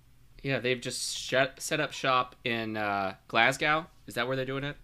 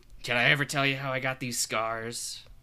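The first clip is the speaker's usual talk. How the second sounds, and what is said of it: Awful Joker impression, sounds Scottish. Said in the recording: “That was an Who awful are you? Scottish accent. ... No, I was trying to do the Joker.”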